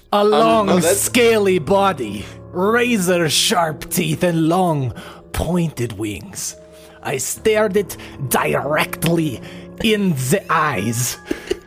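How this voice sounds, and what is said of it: Inconsistent attempted French accent. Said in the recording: “I like how your accent is not French ... This accent is all over the place.”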